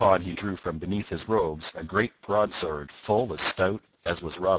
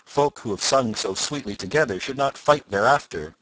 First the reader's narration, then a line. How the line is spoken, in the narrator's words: quoth Robin, with the tears of laughter still in his cheeks